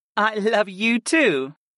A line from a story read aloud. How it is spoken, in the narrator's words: Arwen giggled into my mouth